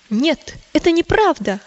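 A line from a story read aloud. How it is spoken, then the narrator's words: Exclaiming. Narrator (Russian): воскликнул христианин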